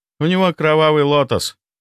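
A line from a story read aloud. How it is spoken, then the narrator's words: Sad, heavy sigh. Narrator (Russian): печально проговорил он и тяжело вздохнул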